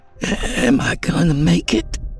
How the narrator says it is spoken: the boy had asked, his voice barely a whisper

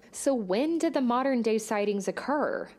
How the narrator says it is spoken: she asked

